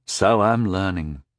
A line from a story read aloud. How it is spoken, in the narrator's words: sighed